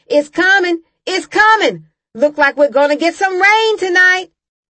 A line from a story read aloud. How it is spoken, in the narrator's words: she'd start hollering